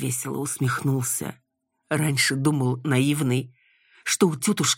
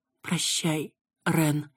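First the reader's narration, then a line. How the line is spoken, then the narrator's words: Sad exhale. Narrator (Russian): выдохнула печально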